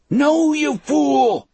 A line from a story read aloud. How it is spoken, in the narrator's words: Brutal yelled